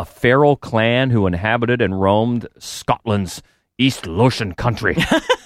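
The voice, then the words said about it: Bad put-on Scottish accent. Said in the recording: “that's a bad accent.”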